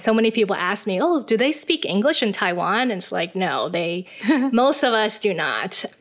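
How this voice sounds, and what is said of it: American accent. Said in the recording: “That's why I speak with an American accent.”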